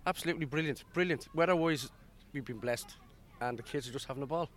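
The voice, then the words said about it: Dublin Irish accent. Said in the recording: “that's not a local accent. No, from Dublin.”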